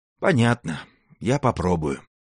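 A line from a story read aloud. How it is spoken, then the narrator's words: Meek sigh. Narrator (Russian): кротко вздохнул Заурбек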